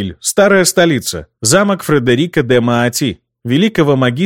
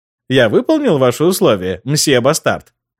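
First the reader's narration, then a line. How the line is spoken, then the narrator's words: Snide question. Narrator (Russian): ехидно спросил Кико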